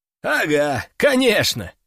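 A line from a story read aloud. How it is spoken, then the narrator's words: Short chuckle. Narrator (Russian): хохотнул Зайцев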